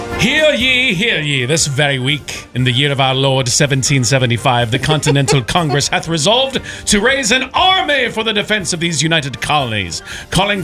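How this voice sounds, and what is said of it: Put-on old-fashioned announcer accent. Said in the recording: “since I cannot do an accent for the life of me, you have the floor.”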